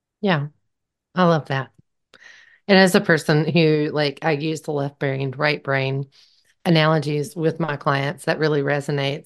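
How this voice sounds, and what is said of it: Speaks with a regional accent. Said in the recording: “You can hear it in my accent”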